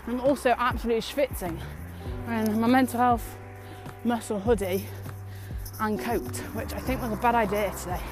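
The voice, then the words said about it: Out of breath while walking. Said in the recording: “I am out of breath on this walk today.”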